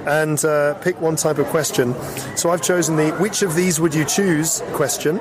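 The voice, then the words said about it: Hoarse, half-lost voice. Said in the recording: “I've lost my voice. Well, half of it. So if you're like, that's not ... it is. It's just the way that I'm speaking because I have a bit of a cold”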